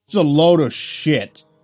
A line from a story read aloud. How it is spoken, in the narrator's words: shouted